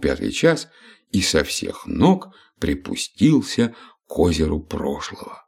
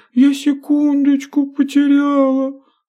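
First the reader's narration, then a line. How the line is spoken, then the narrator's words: Sobbing. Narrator (Russian): всхлипнула минутка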